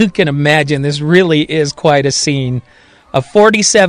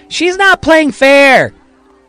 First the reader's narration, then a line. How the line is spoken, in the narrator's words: Johnny Shelby yells in Marion's direction